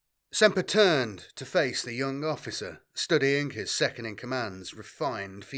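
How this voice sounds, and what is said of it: Usual voice. Nothing is said of it.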